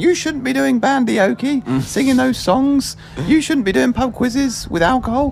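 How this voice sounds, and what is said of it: Impression of a picky Christian. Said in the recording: “my impression of a very picky Christian”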